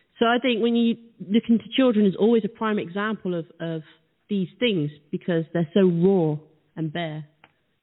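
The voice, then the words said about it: Noticeable foreign accent. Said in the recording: “I love your accent.”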